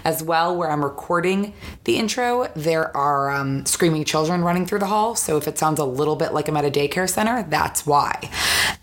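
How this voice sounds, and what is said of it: Hoarse, strained voice. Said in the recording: “lost my voice this weekend, so that is why my voice sounds like this in the intro, and it'll probably sound slightly different in the actual interview”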